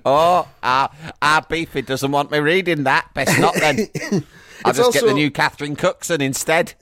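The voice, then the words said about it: Imitates another person's voice. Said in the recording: “Good impression of Ian Botham's wife.”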